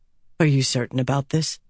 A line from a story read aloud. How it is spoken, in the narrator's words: Andral asked softly